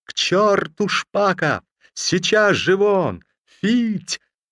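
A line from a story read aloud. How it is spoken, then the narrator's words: Sudden sharp high frenzied shout. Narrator (Russian): Вдруг Бек Агамалов закричал резким, высоким, иступленным голосом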